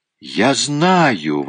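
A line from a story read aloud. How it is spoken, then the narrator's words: Exclamation. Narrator (Russian): воскликнула Чармиан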